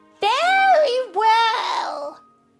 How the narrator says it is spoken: bawled the little pig as loud as he could

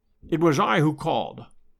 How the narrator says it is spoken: said Holmes

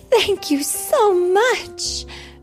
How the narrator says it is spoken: cried Cinderella when she saw it

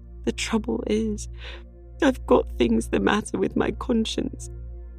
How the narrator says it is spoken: sobbed Anne

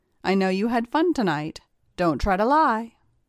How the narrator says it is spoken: She sternly told me

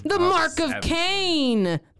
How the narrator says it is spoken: the demon shouted

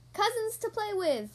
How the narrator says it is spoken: Caillou replies excitedly

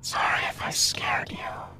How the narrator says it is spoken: I heard someone whisper

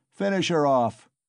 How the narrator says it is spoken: shouted Mikolka, beside himself

